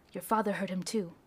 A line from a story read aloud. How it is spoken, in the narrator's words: told her in a hushed tone